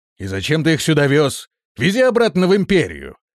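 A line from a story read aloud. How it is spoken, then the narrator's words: Guard's barking shout. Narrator (Russian): рявкнул один из стражников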